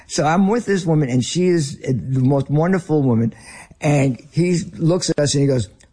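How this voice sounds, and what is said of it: American Northern accent. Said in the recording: “As you can tell, I am a Northerner with my accent.”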